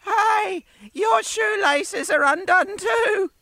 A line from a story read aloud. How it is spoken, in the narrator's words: one kookaburra yelled after him